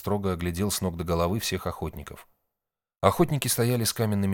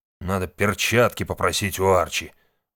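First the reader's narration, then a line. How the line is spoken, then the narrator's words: Disgusted, through gritted teeth. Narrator (Russian): процедил хан, брезгливо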